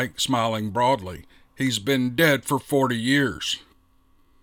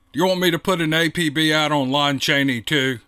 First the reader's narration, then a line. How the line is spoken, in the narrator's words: asked Mike, chuckling